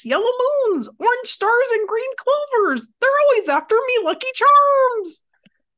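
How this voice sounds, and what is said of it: Put-on leprechaun accent. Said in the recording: “you have to do your best leprechaun accent ... say it in a leprechaun accent ... You do good ... Did great ... terrific”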